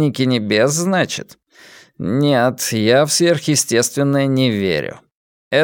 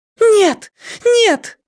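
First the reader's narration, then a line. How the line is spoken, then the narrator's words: Frantic scream, young woman. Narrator (Russian): неистово закричала девушка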